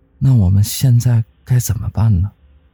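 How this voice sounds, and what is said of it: Quiet, hushed question. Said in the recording (Chinese): “小声的问道”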